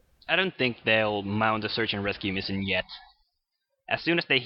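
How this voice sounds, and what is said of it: Usual voice. Nothing is said of it.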